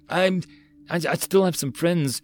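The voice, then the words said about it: Unsure, hesitant voice. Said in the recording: “Lynx spoke in an unsure voice.”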